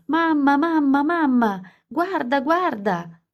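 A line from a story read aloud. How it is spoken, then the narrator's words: Screaming. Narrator (Italian): urlando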